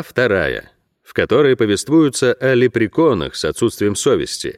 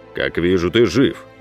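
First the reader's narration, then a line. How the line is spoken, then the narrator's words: Dry. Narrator (Russian): сухо произнес он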